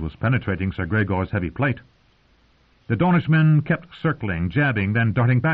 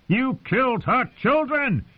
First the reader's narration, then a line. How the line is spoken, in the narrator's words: he shouted